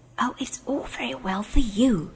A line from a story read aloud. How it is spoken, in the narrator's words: whispered Aravis rather savagely